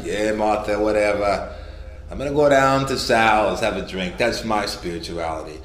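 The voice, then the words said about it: Character voice with put-on accent. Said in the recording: “I don't know why it has to have this accent.”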